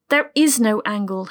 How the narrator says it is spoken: snapped

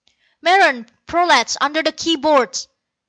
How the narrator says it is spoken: came Keston's shout

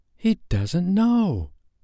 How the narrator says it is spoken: Wendy was so shocked that she exclaimed

